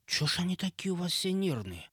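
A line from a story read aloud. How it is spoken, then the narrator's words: Quiet question. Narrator (Russian): тихо спросил я Эпса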